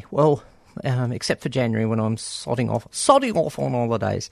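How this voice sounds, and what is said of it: Put-on British accent. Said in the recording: “I don't know why I said that in a British accent.”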